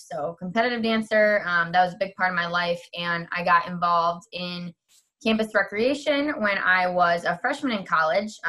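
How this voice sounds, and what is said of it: Wisconsin accent. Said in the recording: “I was born and raised in Wisconsin. A lot of people can still hear my accent and I get a lot of jokes about that.”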